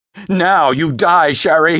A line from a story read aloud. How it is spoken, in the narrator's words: cried, laughing and crying